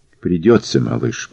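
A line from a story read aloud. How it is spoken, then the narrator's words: Whispered. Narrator (Russian): прошептал он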